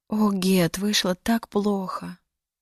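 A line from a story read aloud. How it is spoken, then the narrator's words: Whisper. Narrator (Russian): прошептала она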